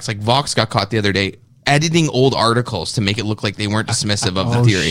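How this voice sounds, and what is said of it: Imitates another person's voice. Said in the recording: “do I sound like that? ... It was a really good impersonation. ... Is that a good impression?”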